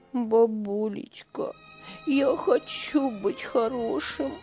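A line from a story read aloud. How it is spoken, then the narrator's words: Sobbing child. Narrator (Russian): Всхлипывал мальчик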